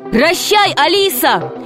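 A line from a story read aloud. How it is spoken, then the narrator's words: Shout. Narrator (Russian): крикнул Греко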